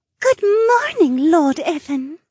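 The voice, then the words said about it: Overly sweet voice. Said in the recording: “in an overly sweet voice.”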